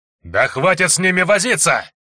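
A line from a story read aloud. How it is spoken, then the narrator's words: Yell. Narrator (Russian): завопил заместитель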